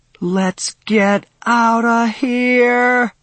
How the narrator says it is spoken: I yell to nobody, fear and panic having obliterated any weariness

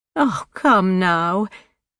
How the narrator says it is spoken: Janine Campbell said with a half laugh

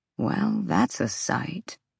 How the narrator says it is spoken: Rune murmured

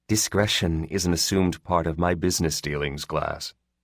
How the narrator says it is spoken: the pirate said flatly

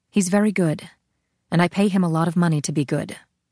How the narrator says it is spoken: As if irritated at the interruption, she said curtly

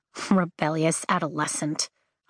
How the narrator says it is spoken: I mutter

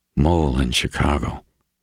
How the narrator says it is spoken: Reacher breathed

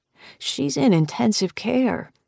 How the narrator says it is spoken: she says, sadly

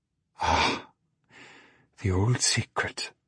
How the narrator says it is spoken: whispered Marie

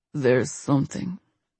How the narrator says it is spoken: he mumbled against her lips

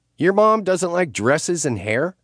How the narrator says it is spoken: Chloe scoffed

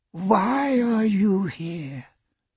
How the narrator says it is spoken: demanded a raspy voice

